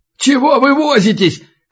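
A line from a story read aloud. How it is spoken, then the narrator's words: Shout from behind. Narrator (Russian): крикнул белорус сзади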